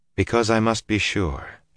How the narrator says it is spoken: she said gently

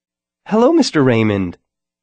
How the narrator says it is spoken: Sarah said brightly

